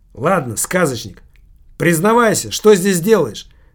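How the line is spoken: Rough tone. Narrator (Russian): спросил Килькин грубым тоном

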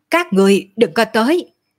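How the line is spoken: Shouting. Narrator (Vietnamese): hét

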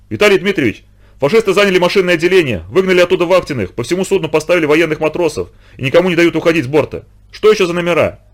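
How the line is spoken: Distraught shouting. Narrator (Russian): Вахтиной с перекошенным лицом и закричал

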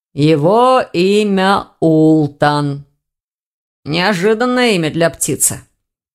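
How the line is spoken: Young man's muffled reply. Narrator (Russian): глухо отозвался молодой человек

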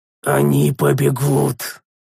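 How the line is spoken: Growled, humming stopped. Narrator (Russian): резко прекратив напевать, прорычал принц Тарис

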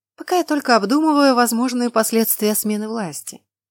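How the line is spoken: Calm. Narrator (Russian): спокойно отозвалась я

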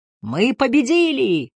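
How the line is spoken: Roaring right in ear. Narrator (Russian): проревела Лис прямо ему в ухо

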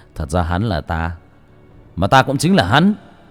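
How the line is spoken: Laughing loudly. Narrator (Vietnamese): Bác cổ bấy giờ mới cười lớn

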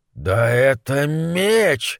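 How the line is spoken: Breathless exhale. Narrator (Russian): выдохнул он

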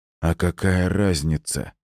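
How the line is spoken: Dull, grim, unafraid. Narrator (Russian): голос юного техноса звучал глухо и мрачно, но страха в нем я не слышал

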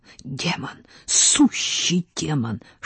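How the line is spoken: Admiring whisper. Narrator (Russian): шептал он восхищенно

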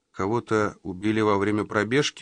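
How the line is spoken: Tired. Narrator (Russian): устало уточнил он

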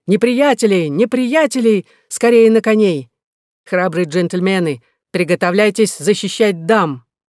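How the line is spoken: Shouted loudly. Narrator (Russian): Роланд громко закричал

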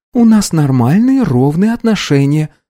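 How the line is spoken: Calm. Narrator (Russian): спокойно ответила Анна

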